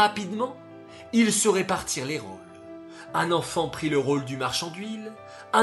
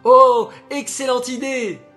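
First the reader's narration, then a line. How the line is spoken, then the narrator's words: Group exclaiming. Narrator (French): s'écrièrent les autres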